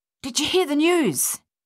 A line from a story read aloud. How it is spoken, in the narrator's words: he panted heavily